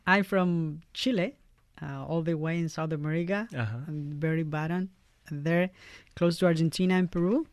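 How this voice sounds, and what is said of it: Chilean Spanish-accented English. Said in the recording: “everybody asks you when they hear your accent or is where you're from”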